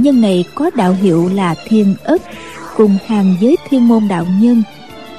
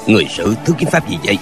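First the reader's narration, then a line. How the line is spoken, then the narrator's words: Cold old man's question. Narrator (Vietnamese): Lão ta lạnh lùng hỏi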